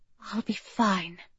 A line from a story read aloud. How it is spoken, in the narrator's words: she whispered by his ear